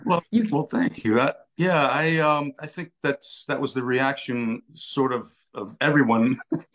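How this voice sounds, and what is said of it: American accent. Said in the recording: “It's crazy to hear you with an American accent”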